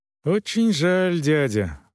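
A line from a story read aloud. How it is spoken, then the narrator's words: Sad sigh. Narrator (Russian): вздохнул Бруно грустно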